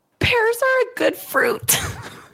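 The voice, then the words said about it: Impression of a friend's voice. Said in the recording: “it's a very good impression.”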